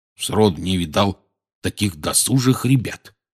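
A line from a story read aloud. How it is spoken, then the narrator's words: Grumbling. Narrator (Russian): бурчал он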